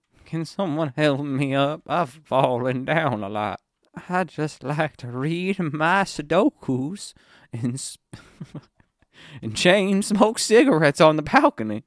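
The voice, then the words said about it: Cowboy voice sounding like old lady. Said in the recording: “my cowboy voice sounds like an old lady”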